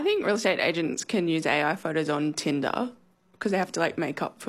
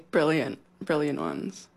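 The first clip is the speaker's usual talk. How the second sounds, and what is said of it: Sarcastic tone. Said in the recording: “being sarcastic.”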